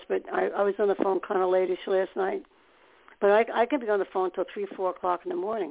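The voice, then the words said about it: Hoarse voice. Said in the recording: “Sometimes I'm hoarse. Today I'm hoarse”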